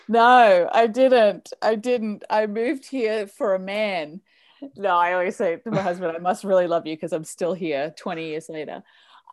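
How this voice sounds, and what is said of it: Australian accent. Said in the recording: “you don't sound like you're originally from Canada ... so you're from Australia”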